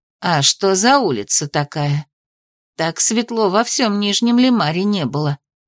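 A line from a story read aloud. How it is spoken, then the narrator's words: Muttering. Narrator (Russian): пробормотала она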